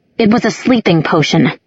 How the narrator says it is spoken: said angrily

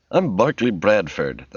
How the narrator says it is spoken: the man said stiffly

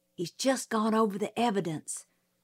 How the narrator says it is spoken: Jim whispered

